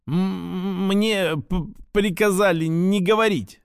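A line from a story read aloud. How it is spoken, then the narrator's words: Stammering, panicked. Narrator (Russian): запинаясь и уже откровенно запаниковав, ответил офицер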